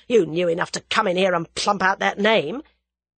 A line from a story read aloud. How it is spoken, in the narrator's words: snarled Whittington